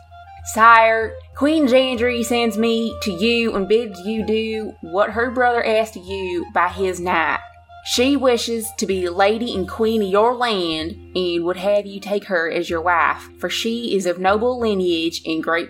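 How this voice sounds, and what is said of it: Exaggerated put-on country accent. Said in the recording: “we'll go with country ... This is going to be horrific.”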